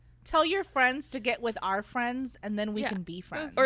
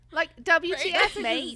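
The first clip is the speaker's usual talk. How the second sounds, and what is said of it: Bad put-on Australian accent. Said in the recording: “I feel like I could do this Australian one ... obviously we know our accents are terrible”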